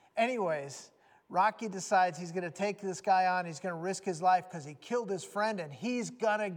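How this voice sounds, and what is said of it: Usual voice. Nothing is said of it.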